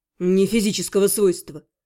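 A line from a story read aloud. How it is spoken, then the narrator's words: Snorting. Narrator (Russian): хмыкнул Шон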